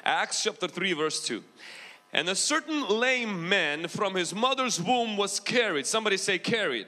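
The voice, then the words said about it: Ukrainian mixed with American accent. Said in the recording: “my accent probably, huh? No? Do I have a big accent? Okay, I do. I have like Ukrainian mixed with American.”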